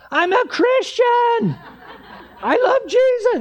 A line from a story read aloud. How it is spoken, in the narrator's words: I'm yelling at them